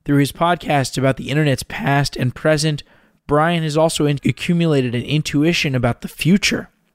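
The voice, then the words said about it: Faded, worn-out voice. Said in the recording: “My voice is a little faded right now”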